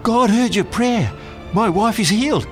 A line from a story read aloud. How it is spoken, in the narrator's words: he excitedly said